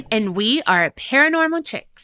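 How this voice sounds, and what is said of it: Very slow, drawn-out delivery. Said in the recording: “I feel like you were doing that in slow-mo.”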